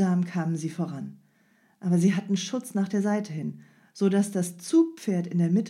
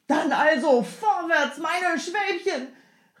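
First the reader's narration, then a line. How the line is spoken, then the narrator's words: Man calling out. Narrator (German): rief der Mann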